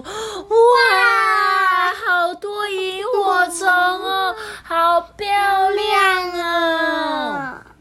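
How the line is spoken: Excited children screaming. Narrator (Chinese): 小朋友都忍不住惊声尖叫的说

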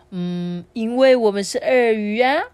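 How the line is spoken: Mother speaking with smile. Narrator (Chinese): 妈妈微笑的告诉小鳄鱼说

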